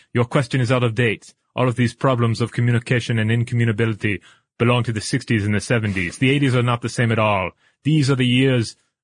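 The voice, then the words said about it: Exaggerated fake French accent. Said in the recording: “Is your French accent better than mine? ... in outrageous French ... Now I'm kind of becoming German in it.”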